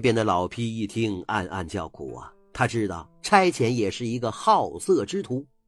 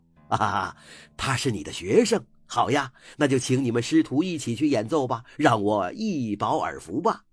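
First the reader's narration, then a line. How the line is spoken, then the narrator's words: Hearty laughter. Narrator (Chinese): 那差遣哈哈大笑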